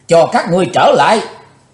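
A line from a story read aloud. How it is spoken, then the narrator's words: Furious loud shout. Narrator (Vietnamese): Chí Tôn thịnh nộ thét lớn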